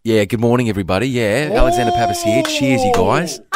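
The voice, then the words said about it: Put-on Australian accent. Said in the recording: “You're in Australia now. You're in oh, Queensland.”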